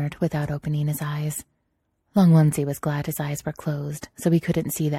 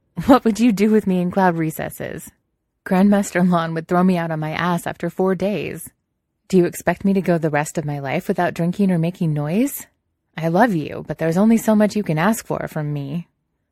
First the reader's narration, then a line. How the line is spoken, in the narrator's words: He laughed and said